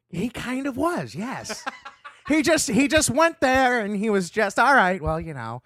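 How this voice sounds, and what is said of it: Imitates another person's voice. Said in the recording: “How'd you get better at that impression? ... I'm stealing James Adomian's.”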